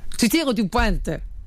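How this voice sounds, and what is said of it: Put-on Marseille French accent. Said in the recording (French): “ça, c'est Marseille, ça ... c'est ton accent qui m'a contaminé, mais dans le mauvais bord ... C'était peut-être pas très bon”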